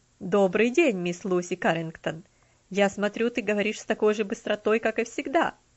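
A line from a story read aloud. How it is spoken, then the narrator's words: Laughing greeting. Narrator (Russian): Приветствовал ее мистер Динсмор, смеясь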